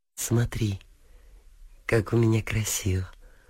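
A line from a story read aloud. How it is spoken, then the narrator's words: Tender voice. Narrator (Russian): молвила русалка нежным голосом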